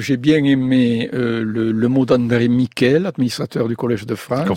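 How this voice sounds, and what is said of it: Southern French Carcassonne accent. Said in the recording (French): “son bel accent, lui aussi d'ailleurs, Jean Guilaine ... vous, c'est Carcassonne ... Moi, c'est Carcassonne”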